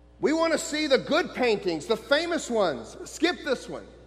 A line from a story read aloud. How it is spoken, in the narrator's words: a voice in the back of the room shouted